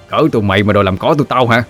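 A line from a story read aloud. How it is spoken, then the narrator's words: Shouting. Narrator (Vietnamese): Nó quát lên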